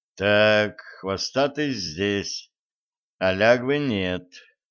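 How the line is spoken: Gloomy pronouncement. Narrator (Russian): изрек Блат, мрачно глядя на кота

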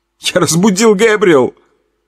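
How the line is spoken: Loud sob. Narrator (Russian): Он громко всхлипнул

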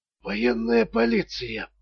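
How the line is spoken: Barely audible. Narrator (Russian): еле слышно повторил он

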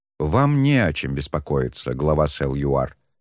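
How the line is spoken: Calm tone. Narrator (Russian): спокойным тоном ответил Шен

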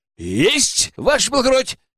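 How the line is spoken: Eager shout. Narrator (Russian): с особым рвением крикнул Иван

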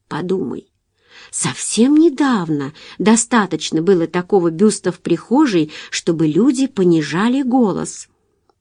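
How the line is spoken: Whisper. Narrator (Russian): Джулия прошептав

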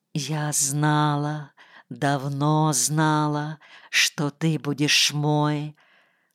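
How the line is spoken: Moaning whisper. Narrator (Russian): стонуще прошептала она

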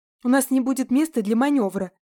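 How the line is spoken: Breathless running shout. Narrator (Russian): выкрикнула я ему в спину, шумно дыша и быстро работая ногами

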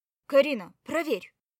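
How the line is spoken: Bark. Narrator (Russian): рявкнула Марья Федоровна

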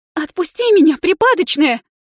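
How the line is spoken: Shrill squeal in pain. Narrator (Russian): взвизгнула я, когда Инна еще сильнее дернула за волосы

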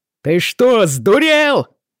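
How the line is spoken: Indignant yell. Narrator (Russian): завопил он в негодовании

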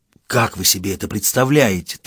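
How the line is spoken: Whispered question. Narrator (Russian): также шепотом спросил Матос

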